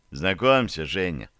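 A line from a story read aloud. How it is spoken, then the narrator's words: Plain. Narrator (Russian): сказал Поликарпов Уляхину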